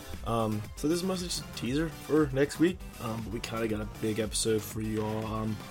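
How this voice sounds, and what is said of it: Sick-sounding voice. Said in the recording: “We're kind of feeling under the weather this week. You probably heard in my voice. I was sick”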